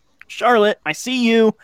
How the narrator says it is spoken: I yelled

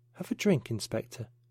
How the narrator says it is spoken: she said quietly

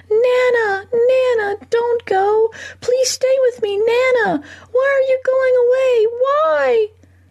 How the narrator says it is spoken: The little boy flung himself against his mother's grip, her long fingernails cutting into his shoulders, screaming

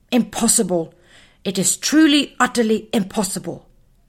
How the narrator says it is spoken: sighed Muffin angrily

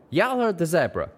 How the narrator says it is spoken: Calamity shouted

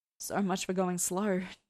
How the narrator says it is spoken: Dean laughed, his voice deep and hoarse

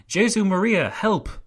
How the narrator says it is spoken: One of the councillors who had been thrown out of the window cried

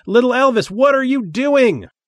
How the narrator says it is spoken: He yelled again

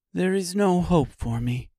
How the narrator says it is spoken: she said sadly

